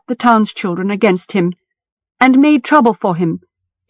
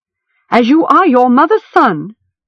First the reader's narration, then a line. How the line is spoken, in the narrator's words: Stig said, not raising his voice, but making Gom shiver all the same